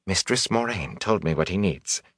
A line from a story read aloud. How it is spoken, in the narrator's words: she said softly